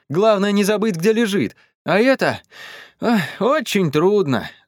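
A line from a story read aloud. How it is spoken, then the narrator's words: Sighing. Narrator (Russian): вздохнул он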